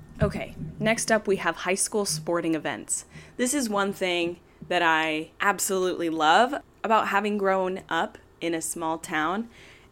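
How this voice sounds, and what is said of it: Strong Utah accent. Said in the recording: “I do have a very strong Utah accent, I've been told. ... I know that I like slur my words together sometimes too”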